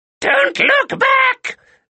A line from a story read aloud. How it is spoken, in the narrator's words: yelled Baba Yaga